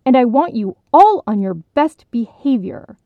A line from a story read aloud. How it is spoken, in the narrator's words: head counselor Davis warned sternly